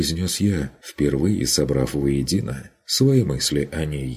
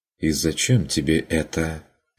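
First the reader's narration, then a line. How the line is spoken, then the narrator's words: Dry question. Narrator (Russian): сухо спросила она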